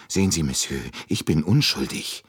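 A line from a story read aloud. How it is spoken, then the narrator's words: Still anxious. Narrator (German): sagte Michel noch immer ängstlich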